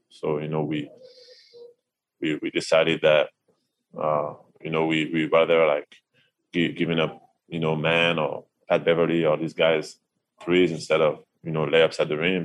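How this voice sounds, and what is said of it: Frustrated tone of voice. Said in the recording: “you can hear the frustration in his voice”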